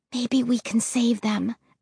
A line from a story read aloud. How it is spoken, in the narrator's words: I whispered